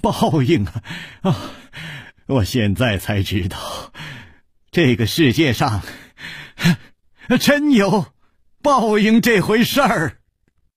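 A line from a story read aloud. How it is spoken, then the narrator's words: Loud laughter. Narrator (Chinese): 他趴在桌子上大笑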